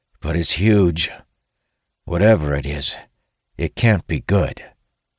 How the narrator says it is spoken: Talon replies wearily

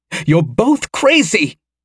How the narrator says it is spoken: snapped Gwynedd

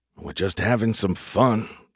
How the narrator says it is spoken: Larry grumbled

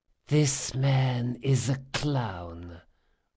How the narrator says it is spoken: whispered Selendry

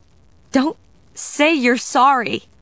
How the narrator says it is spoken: Diana cried, struggling to free herself from the vampire's unbreakable hold

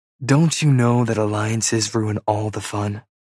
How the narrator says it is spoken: Peyton sighs

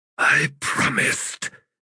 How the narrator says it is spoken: he whispered

